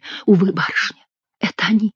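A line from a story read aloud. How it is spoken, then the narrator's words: Sad whisper. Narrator (Russian): прошептала бедная девушка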